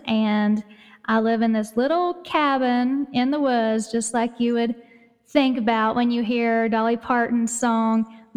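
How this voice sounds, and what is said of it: East Tennessee accent. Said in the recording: “you can probably tell by my accent that I live in Tennessee, in East Tennessee, in the mountains”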